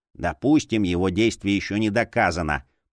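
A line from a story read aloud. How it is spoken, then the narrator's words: Grumbling. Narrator (Russian): проворчал Гулди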